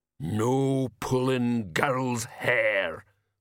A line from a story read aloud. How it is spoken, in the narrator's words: rumbled